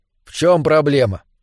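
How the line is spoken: Plain question. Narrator (Russian): снова спросил Терри

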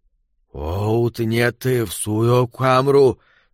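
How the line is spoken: Wheezing dying voice. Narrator (Russian): сказал Перси своим хрипящим, умирающим голосом

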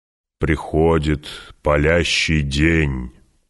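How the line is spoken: Solemn proclamation. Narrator (Russian): провозгласил Стилгар уже совершенно торжественным тоном

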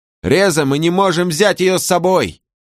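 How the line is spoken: Shouted. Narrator (Russian): крикнул ей Сожрук

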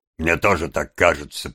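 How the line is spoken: Grumbled. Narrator (Russian): проворчал Сайкс

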